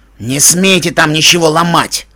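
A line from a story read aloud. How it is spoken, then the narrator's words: Menacing hiss. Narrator (Russian): угрожающе прошипел правитель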